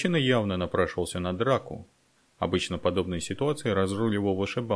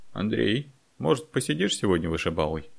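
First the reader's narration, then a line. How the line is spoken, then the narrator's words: Timid bartender inquiry. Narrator (Russian): робко осведомился бармен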